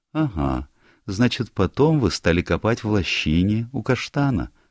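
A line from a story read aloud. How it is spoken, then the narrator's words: Gentle question. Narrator (Russian): ласково спросила она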